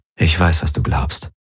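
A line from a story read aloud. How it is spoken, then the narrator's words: Gentle. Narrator (German): sagte er sanft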